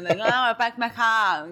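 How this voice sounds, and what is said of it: Imitates a Boston accent. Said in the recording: “I don't understand some of them with their accent... The East Coast accent is crazy”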